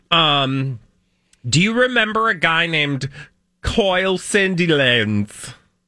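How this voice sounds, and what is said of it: Put-on Australian accent. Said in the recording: “Was that your Australian accent?”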